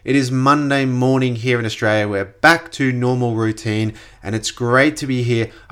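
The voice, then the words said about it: Congested, slightly tired voice. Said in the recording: “apologize for my voice. I'm a little bit congested ... a jet lag, kind of exhaustion weekend”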